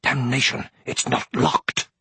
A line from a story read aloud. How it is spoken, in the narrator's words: Brom hissed furiously